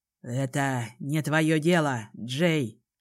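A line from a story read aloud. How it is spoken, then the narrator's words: Hoarse, after pause. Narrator (Russian): наконец хрипло проговорил отец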